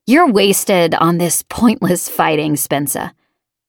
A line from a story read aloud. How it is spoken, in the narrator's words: Braid growled, then muttered